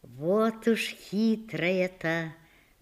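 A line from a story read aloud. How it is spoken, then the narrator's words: Muttering with a smile. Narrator (Russian): бормочет она и улыбается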